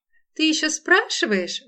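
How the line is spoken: Exclaimed. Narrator (Russian): воскликнула Лола

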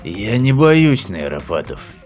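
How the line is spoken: Grumbling. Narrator (Russian): проворчал Лафин

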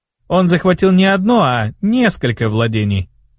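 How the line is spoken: Strange tone. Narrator (Russian): заметил Тис каким-то странным тоном

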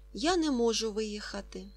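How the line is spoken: Plain. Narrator (Ukrainian): сказав Ка

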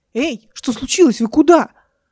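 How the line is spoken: Shouting, coughing. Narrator (Russian): Эл закричала, закашляла

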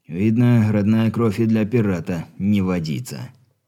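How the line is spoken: Sorrowful sigh. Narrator (Russian): горестно вздохнул боярин

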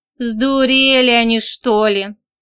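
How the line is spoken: Grumbling. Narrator (Russian): проворчал Роман Андреевич

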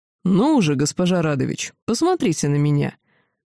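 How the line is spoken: Very unkind commanding tone. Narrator (Russian): Очень недобрым тоном приказал повелитель

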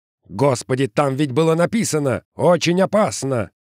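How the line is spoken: Yelling. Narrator (Russian): заорал Каскер

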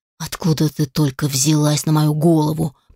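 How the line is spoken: Through gritted teeth, close. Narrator (Russian): процедил Алишер прямо ей в лицо

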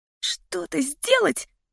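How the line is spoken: Squeaking. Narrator (Russian): пропищал Нейт

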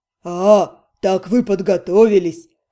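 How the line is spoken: Snorting, dragon. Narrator (Russian): хмыкнул дракон

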